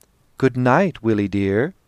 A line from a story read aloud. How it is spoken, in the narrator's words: She said gaily